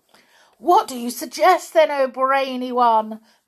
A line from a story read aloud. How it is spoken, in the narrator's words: they cried out